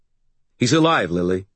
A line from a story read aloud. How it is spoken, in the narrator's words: I said quickly